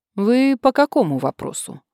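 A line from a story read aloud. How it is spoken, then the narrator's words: Dry woman's inquiry. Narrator (Russian): сухо осведомилась она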